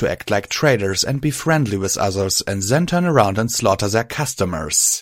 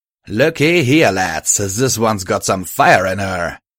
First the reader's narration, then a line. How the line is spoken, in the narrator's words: he crowed triumphantly